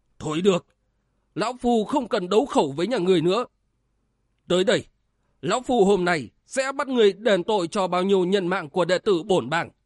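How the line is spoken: Cornered, shouting. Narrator (Vietnamese): Thường Công Minh bí thế quát lên

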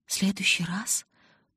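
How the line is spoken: Moaning. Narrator (Russian): простонала я

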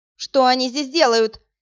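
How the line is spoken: Shouting woman. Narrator (Russian): закричала она

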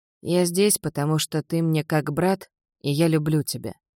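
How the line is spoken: Quiet. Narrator (Russian): тихо произнес он

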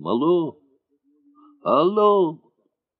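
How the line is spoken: Tearful shouting. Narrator (Russian): кто-то кричал плачущим голосом

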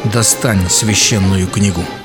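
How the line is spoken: Quiet and menacing. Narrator (Russian): Хабиб тихо и грозно сказал

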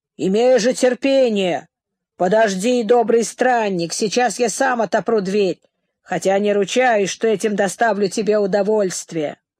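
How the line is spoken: Hermit's thundering shout. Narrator (Russian): Пустынник громовым голосом закричал

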